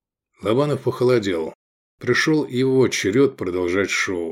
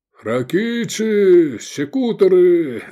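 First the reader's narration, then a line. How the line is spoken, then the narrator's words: Shouting from the corridor. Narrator (Russian): заорали в коридоре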